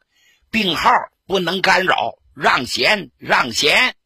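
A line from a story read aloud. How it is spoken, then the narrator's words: Loud. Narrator (Chinese): 罗瑞卿 大声说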